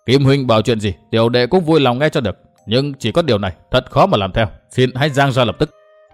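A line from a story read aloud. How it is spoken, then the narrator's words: Cold, dismissive laugh. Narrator (Vietnamese): Đinh Diệm Sơn cười nhạt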